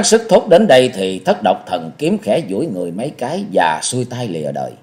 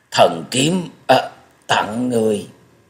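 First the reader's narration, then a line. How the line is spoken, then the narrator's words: Sighing, halting stammer. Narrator (Vietnamese): Thất Độc Thần Kiếm buông ra một hơi thở dài lắp bắp từng tiếng một nói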